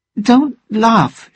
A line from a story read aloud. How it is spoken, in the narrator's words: she said crossly